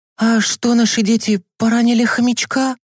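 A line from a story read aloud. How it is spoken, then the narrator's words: Frightened question, mother. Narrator (Russian): испуганно спросила мама Миланы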